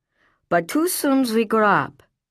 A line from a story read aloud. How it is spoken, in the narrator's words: he said with a sigh